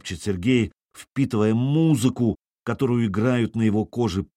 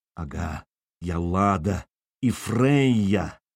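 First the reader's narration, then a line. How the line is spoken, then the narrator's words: Hoarse from shouting. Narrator (Russian): хриплый от недавнего крика голос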